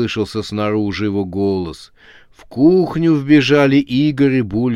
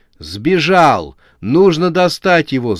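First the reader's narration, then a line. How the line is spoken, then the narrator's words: Shouting. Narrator (Russian): закричал забинтованный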